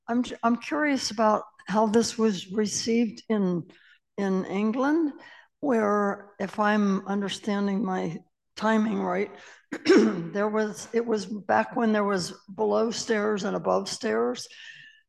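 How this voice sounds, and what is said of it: Voice failing, going hoarse. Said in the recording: “I'm all of a sudden losing my voice.”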